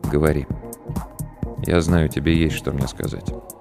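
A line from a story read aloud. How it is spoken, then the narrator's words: Quiet but weighty. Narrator (Russian): тихо, но очень весомо сказал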